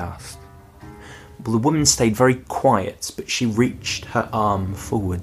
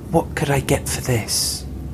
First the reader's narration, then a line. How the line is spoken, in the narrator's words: asked, her voice barely more than a whisper